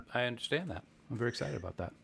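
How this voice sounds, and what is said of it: Flat, unenthusiastic delivery. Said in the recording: “You sound really excited.”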